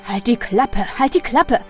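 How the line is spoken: Fearful barking. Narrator (German): bellte der Hausmeister ihn an, mit Angst in der Stimme

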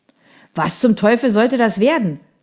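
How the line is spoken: Angry shout. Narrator (German): schrie eine wütende Stimme

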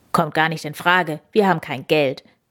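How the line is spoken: Said gruffly. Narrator (German): sagte Papa Mauskowski schroff

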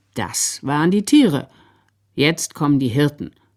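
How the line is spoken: Said very calmly. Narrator (German): sagte der Sepp ganz ruhig

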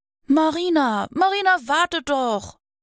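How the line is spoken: Breathless calling. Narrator (German): rief außer Atem

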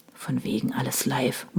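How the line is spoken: Murmuring. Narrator (German): murmelte Henning

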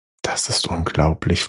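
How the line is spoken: Whispering. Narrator (German): flüsterte Fidala

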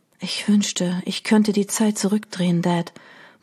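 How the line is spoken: Murmur. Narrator (German): murmelte sie

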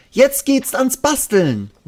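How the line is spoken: Called out. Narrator (German): ruft Ronja

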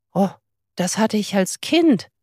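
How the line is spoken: Called out. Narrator (German): rief

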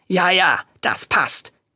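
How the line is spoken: Growl. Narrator (German): knurrte Reinaldo

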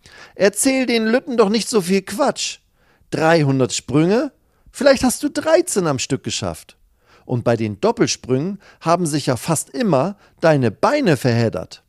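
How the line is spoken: Calling across. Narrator (German): ruft sie rüber

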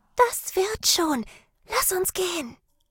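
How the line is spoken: Whispered. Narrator (German): flüsterte sie

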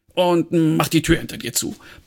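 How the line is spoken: Barked. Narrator (German): bellte Fumble

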